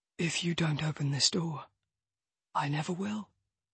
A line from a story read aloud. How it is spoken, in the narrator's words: he whispers